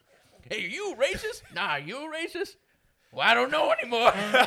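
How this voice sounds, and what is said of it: Put-on regional Midwestern-Southern dialect. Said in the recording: “for that dialect, it was a little further south than Wisconsin ... Southern”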